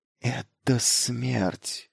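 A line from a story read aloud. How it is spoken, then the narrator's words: Voice dropping to whisper. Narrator (Russian): голос Майлза упал до шепота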